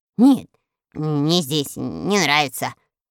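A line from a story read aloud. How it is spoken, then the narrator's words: Muttering. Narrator (Russian): бормотал Мурзилка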